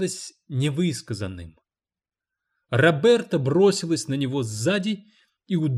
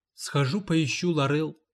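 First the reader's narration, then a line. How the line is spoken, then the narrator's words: Embarrassed mumble. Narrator (Russian): смущенно промямлила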